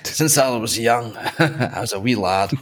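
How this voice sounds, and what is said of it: Put-on Scottish accent. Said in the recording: “He might have a Scottish accent”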